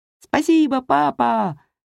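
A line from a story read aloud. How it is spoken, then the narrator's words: Shouted. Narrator (Russian): крикнул Джеймс, запрокинув голову к небу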